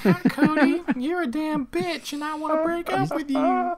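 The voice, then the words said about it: Put-on voice of a girlfriend. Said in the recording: “doing an impersonation of their voice... you sound a little different”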